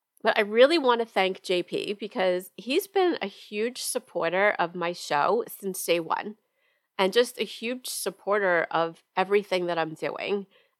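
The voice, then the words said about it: Congested voice from a head cold. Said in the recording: “you have to excuse my voice... here I am with a head cold... I sound terrible. So please excuse my voice.”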